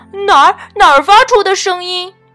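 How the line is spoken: Panicked yell. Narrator (Chinese): 他却慌慌张张地大叫

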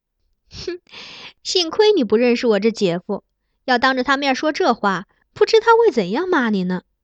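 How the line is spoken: Laughing. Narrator (Chinese): 若竹笑道

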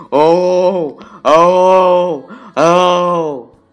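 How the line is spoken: Loud shouting while running. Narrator (Chinese): 吉米一边跑一边大声的向动物们吼叫

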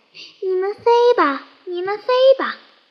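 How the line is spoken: Loud, forceful shout. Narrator (Chinese): 他使劲喊起来

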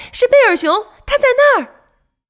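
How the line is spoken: Birds shouting together. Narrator (Chinese): 鹪鹩、猫头鹰和乌鸦在空中一起喊了起来

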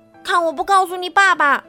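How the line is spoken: Loud parrot voice. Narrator (Chinese): 绿鹦鹉大声说

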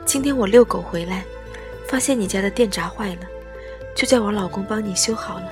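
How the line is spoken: Smiling. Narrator (Chinese): 邻居笑眯眯地说

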